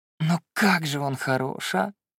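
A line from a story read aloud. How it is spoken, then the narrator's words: Dreamy sigh. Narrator (Russian): Еще раз мечтательно вздохнула Лина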